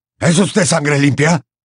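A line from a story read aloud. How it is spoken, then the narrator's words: Belligerent question. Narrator (Spanish): preguntó con tono belicoso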